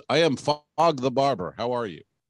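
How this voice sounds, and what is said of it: Imitates another person's accent. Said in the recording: “from the steel drum band and this guy's accent”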